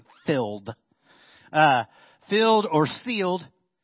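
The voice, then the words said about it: Strong country accent. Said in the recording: “my country accent comes out huge when I say filled”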